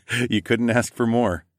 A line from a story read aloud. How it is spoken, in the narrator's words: laughed